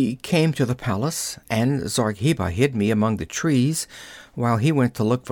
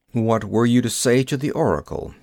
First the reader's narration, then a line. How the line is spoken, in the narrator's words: he asked